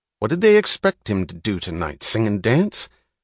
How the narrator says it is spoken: He snapped the question angrily

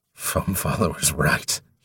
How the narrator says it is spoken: he rasped hoarsely

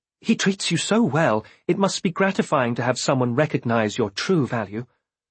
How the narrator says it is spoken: At her sudden scowl, I hastily added

